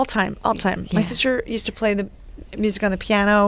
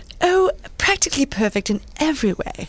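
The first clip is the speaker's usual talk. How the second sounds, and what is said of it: Put-on English accent. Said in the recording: “Can you do an English accent? ... That was brilliant.”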